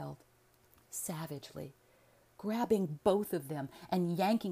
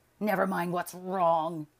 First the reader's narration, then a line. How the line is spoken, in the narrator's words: he snarled